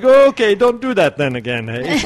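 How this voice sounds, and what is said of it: Bad put-on Canadian accent. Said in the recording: “Probably worst Canadian accent ever.”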